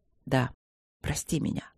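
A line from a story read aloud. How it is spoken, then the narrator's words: Hoarse speech. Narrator (Russian): сказал он сипло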